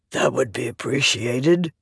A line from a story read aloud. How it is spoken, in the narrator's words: the man said, his voice ragged